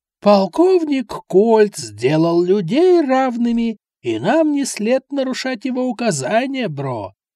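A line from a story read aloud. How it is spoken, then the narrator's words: Hoarse quoting, then laughing. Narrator (Russian): Хриплым голосом процитировала кого-то Зара и рассмеялась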